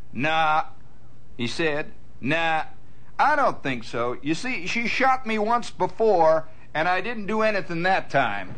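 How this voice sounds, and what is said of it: Put-on folksy accent. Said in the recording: “now here I got to go into my accent here”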